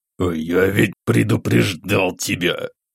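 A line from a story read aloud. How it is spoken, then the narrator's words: Through gritted teeth. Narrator (Russian): сквозь зубы процедил Игнат Сергеевич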